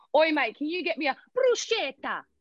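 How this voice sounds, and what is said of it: Put-on Australian accent. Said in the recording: “your Australian accent is so good ... How do you sound so Australian?”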